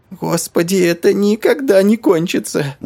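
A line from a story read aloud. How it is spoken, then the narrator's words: Inner groan. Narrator (Russian): Мысленно простонал жирный Джонни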